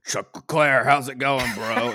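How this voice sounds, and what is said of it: Imitates another person's voice. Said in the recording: “that Willie T impression”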